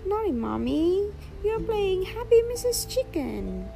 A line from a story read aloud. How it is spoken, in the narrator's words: exclaims Peppa